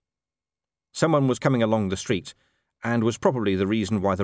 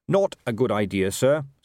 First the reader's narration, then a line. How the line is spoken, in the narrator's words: said Carrot firmly